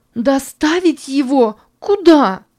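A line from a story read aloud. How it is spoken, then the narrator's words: Anguished shout. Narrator (Russian): кричала Санна тоскливо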